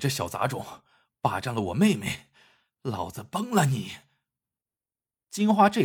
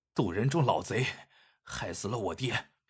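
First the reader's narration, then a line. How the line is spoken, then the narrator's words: Through gritted teeth. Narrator (Chinese): 黑七咬咬牙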